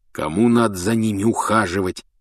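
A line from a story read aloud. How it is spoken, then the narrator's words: Grumbling. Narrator (Russian): ворчал Рон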